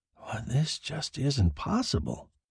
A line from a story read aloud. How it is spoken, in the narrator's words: said hoarsely